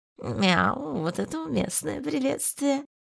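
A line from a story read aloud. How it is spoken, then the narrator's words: Purring. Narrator (Russian): Я замурлыкал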